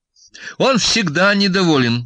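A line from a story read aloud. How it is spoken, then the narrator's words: Cheerful, brisk. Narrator (Russian): бодро заговорила Настя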